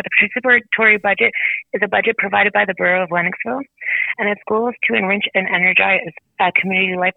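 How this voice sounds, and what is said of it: Hoarse, fading voice. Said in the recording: “my voice is leaving”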